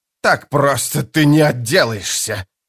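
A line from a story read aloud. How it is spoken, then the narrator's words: Furious hiss. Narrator (Russian): прошипел белый от ярости Пормкваль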